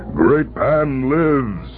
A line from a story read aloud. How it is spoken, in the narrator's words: he cried